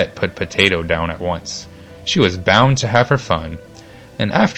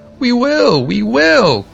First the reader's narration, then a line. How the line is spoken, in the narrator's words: called the vegetables in chorus, and the potato and Babette's little fist yelled the loudest of all